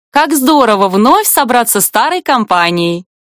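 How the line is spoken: Cheerful declaration. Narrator (Russian): бодро заявляет Кару

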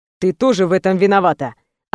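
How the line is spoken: Rather sharp. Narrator (Russian): ответил довольно резко

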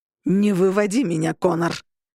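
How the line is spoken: Growled. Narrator (Russian): прорычал Августин

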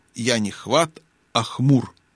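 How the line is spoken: Unsteady objection. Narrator (Russian): нетвердым голосом возразил бродякль

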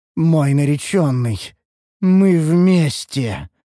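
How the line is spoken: Otherworldly declaring voice. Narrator (Russian): заявила эльфийка потусторонним голосом

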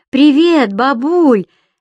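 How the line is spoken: Granddaughter, cheerful, over phone. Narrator (Russian): весело отозвался на другом конце линии голос внучки

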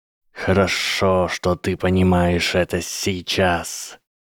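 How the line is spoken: Cold hiss. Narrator (Russian): холодно прошипела змея

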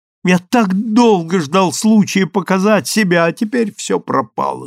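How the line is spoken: Moaning. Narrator (Russian): стонал Тони

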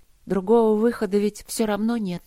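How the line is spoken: Slightly trembling but calm. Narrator (Russian): сказала она чуть дрогнувшим голосом, но неуязвленно, спокойно

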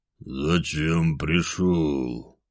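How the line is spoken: Dull, muffled voice. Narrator (Russian): Орлас глухо произнес

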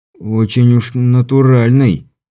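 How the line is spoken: Hoarse objection. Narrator (Russian): также хрипло возразил Стюарт

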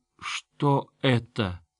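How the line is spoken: Sad sigh. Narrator (Russian): Ихторм печально выдохнул

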